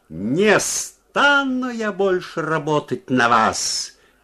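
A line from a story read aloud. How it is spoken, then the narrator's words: Loud shout. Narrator (Russian): крикнула она громко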